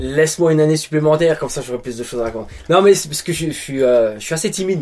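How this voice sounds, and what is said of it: French accent. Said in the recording (French): “vous avez ... l'accent ... un Français”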